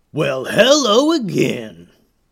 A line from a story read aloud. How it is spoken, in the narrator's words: growled the leader